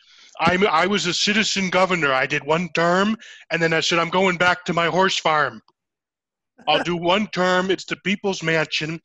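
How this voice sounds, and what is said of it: Jesse Ventura impression. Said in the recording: “do an impression jamboree ... Governor Jesse Ventura”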